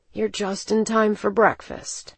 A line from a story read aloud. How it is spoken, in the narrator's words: he slurred with a groggy smile